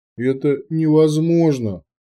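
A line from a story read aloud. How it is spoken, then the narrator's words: Dejected voice. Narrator (Russian): поникшим голосом произнес Турчи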